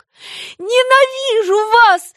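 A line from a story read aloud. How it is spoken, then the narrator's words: Choking with sobs. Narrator (Russian): задохнулась она от рыданий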